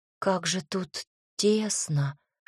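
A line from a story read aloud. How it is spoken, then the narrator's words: Whispering to herself. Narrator (Russian): шепотом сказала сама себе Оливия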